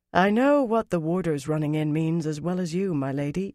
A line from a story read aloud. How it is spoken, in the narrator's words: Yurith said in courtly accents, with clear reluctance